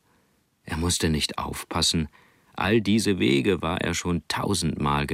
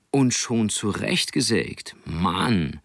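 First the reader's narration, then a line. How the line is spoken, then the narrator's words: Joyful voice. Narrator (German): sagte mit freudiger Stimme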